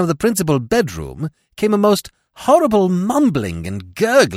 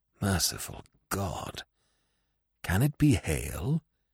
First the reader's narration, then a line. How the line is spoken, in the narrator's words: he muttered